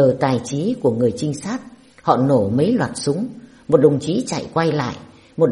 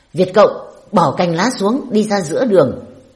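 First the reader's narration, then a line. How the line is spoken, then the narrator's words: Loud shout from above. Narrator (Vietnamese): Địch ở trên đèo, chúng quát to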